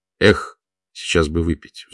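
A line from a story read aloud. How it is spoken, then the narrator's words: Sighing. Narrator (Russian): вздохнул Владимир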